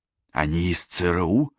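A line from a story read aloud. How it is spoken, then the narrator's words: Loud whisper. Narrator (Russian): громким шепотом спросила Кэсси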